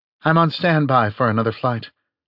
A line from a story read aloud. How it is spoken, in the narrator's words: said Peggy Ann